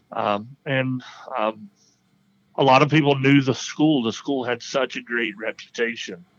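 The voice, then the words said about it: Speaks with a noticeable non-local accent. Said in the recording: “they would hear my accent and go, do you live here? Are you from here?”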